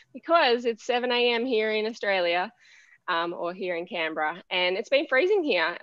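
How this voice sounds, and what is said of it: Unusually deep, rough-sounding voice. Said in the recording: “I sound a bit like a man today, but it is me, I promise. And my voice may”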